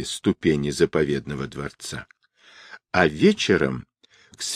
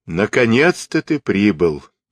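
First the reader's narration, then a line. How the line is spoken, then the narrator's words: Laughing speech. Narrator (Russian): рассмеявшись, молвил златоглавый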